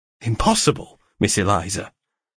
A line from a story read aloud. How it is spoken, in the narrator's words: I exclaimed in a tone that made her start